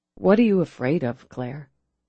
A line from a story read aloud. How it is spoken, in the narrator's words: he asked softly